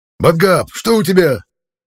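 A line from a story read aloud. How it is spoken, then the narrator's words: Barked. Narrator (Russian): рявкнул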